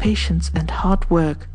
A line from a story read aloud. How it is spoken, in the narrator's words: he muttered to himself